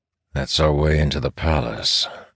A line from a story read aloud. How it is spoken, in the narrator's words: Elias says dryly